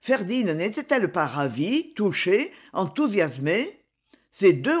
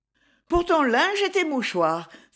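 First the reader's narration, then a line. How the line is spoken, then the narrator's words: Exclaimed. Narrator (French): s'écria Louise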